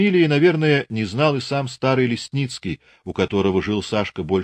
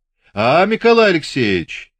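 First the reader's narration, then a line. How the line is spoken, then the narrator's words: Loud stern call. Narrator (Russian): звал громко и строго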